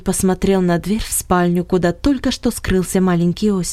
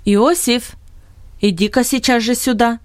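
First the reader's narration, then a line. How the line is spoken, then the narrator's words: Commanding call. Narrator (Russian): приказным тоном позвал Беннет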